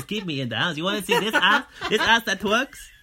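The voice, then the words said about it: Imitated voice with Spanish-sounding accent. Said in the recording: “my Dre sounds like this ... She sounds Spanish. I don't know if she sounds Mexican.”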